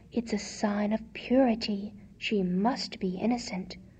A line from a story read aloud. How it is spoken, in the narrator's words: Minnie murmured